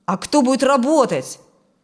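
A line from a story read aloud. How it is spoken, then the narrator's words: Sharp question. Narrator (Russian): резко спросил Фрэнк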